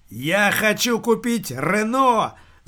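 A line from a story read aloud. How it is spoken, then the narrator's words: Yelling. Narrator (Russian): заорал Дэн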